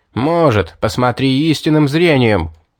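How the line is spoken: Angry shout. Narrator (Russian): зло крикнул я

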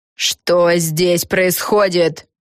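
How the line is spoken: Barked. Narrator (Russian): рявкнула Фелисити Бет

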